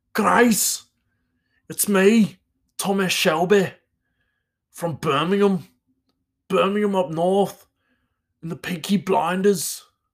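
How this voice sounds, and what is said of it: Put-on Birmingham accent. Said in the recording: “That's maybe not Thomas Shelby, but that's like kind of Birmingham.”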